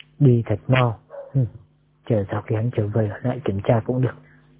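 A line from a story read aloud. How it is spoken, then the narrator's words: Whispered muttering. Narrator (Vietnamese): tôn trưởng lão cho mày thì thào lẩm bẩm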